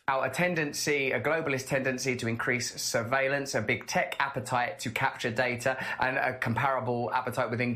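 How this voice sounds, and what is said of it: British accent. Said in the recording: “Russell Brand speaks with a British accent.”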